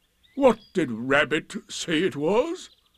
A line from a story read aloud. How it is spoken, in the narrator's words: he asked